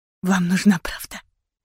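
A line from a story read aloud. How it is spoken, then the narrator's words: Tense trembling whisper. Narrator (Russian): прошептала, сжимая трясущиеся пальцы в кулаки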